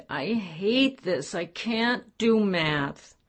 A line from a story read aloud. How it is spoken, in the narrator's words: With a pathetic look that normally sent Andrea over the edge, whined